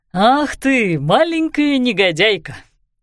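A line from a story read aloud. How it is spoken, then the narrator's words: Good-natured grumble. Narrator (Russian): добродушно проворчал сэр Роланд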